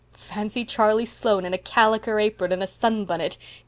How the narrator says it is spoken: giggled Priscilla

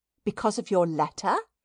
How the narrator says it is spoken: she eagerly brought out

